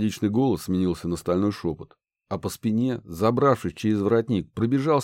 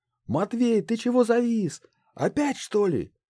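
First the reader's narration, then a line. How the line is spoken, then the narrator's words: Shout. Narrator (Russian): крикнула Банши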